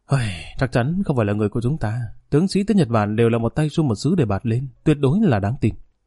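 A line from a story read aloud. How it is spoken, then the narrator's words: Sighing. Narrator (Vietnamese): Triệu Tinh Nghiến thở dài nói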